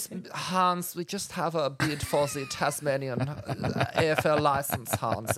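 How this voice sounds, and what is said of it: Camp German accent. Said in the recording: “camp German Bond villain ... A camp German accent.”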